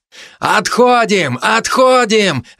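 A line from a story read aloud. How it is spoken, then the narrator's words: Desperate distant yelling. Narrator (Russian): отчаянно заорал где-то позади Платон Саблин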